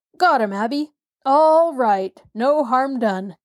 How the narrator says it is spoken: shouted Uncle Henry

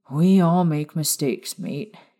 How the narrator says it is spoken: James sighed

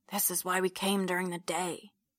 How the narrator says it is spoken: he whispers back

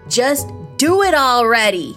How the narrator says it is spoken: Nick yelled

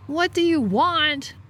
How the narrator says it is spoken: I yelled into the hole

